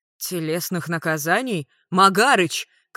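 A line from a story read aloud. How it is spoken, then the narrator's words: Shouting after. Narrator (Russian): крикнул им вслед Рикошет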